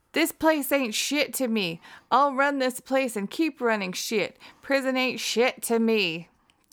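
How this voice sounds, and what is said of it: Put-on southern US accent. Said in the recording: “Did he do it in the southern accent that you just used?”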